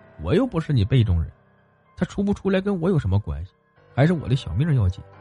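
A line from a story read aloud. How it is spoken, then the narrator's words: Inner muttering. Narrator (Chinese): 张二狗心中嘀咕一句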